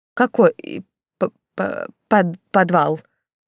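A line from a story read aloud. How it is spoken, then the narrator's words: Stammering whisper. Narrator (Russian): Заикаясь, прошептала Тильда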